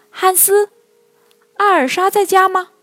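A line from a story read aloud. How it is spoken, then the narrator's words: Shouting. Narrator (Chinese): 他喊道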